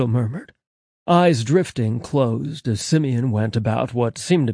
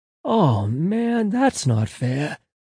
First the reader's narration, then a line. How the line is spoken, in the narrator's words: Angel sighed, groaning